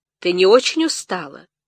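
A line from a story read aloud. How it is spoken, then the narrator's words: Surprisingly clear pleasant male voice. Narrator (Russian): мужчина, на удивление чистым и приятным голосом, сказал спутнице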